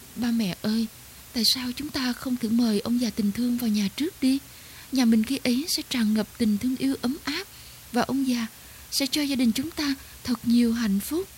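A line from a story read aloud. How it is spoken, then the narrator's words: Soft gentle girl's voice. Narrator (Vietnamese): Cô con gái bỗng lên tiếng nhỏ nhẹ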